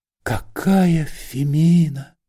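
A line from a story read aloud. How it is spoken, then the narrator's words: Whispering. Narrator (Russian): шептал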